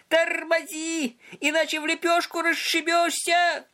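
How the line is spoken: Desperate yell. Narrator (Russian): Он отчаянно завопил

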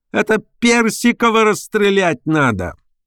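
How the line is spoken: Shrill screaming voice. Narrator (Russian): чей-то визгливый голос кричал

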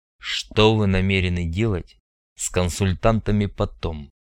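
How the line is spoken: Quiet question. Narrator (Russian): тихо спросил Андрей

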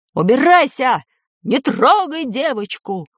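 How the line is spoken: Man's shout. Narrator (Russian): крикнул мужской голос

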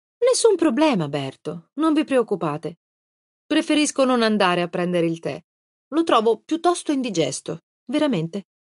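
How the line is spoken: Said with a smile. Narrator (Italian): mutò il sospiro in un sorriso, un bel sorriso, e disse

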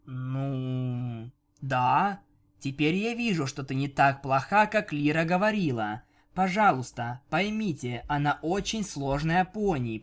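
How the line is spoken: Desperate pleading drawl. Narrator (Russian): протянула Бон-Бон, отчаянно пытаясь заставить Винил взглянуть на Лиру по-другому

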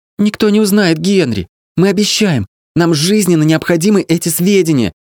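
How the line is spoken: Pleading. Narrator (Russian): взмолилась Кейт

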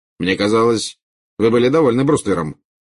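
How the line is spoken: Cold remark. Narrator (Russian): холодно заметил Скримджер

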